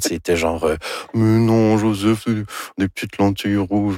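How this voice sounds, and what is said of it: Imitates another person's voice. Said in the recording (French): “Ça, c'est mon imitation de Anne Dorval. ... C'est très réussi.”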